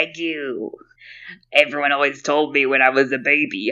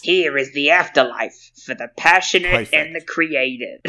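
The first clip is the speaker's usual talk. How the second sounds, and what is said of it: Goblin-like character voice. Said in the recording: “you've got a really beautiful voice ... how much I sounded like a goblin ... I've hunched my shoulders up to my ears when I'm doing that voice”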